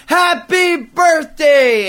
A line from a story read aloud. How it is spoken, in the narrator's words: a bunch of my buddies screamed